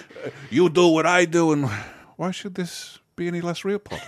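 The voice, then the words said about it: Bad Italian accent that keeps slipping. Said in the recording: “he just cannot hold on to that Italian accent... It keeps slipping away from him”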